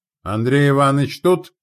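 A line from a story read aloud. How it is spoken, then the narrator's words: Shouted. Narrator (Russian): крикнула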